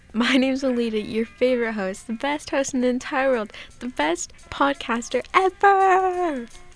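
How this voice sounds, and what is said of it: Sarcastic, over-the-top self-praise. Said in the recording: “I'm being sarcastic, obviously.”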